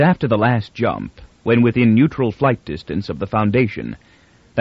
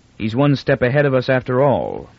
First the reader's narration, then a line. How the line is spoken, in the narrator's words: Captain Pritchard said icily